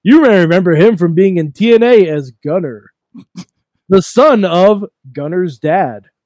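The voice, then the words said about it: Wrestling color commentator voice. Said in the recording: “do my former color voice.”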